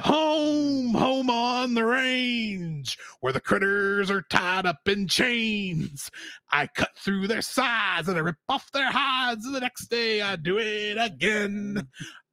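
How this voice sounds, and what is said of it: Villain character voice singing. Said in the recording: “my best ... impersonation ... of McLeach singing Home on the Range”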